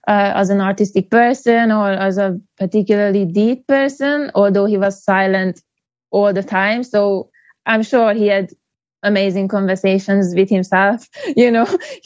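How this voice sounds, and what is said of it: Hungarian accent. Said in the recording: “I'm from Hungary ... A lovely accent ... It's a weird accent. People never know where I'm from ... they say I'm French or I'm from Norway or Finland”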